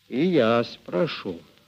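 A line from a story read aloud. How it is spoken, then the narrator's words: Calm. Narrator (Russian): спокойно ответил Мишка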